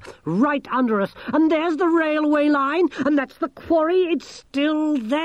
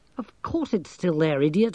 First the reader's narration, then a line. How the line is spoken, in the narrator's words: muttered Angelo